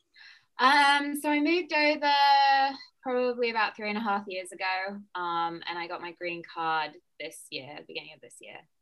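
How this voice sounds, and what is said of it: British accent, slightly Americanized. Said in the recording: “has a really cool accent ... people back in the UK that my accent has slowly got more American ... my accent still sounds very like distinct”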